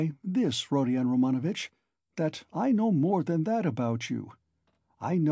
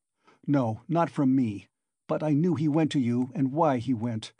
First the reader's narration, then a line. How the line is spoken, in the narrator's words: Raskolnikov answered sharply